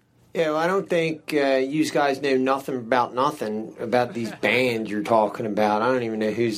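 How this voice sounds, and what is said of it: Impression of a radio show caller. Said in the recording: “his impersonation of like someone calling in a sports show or a show about music”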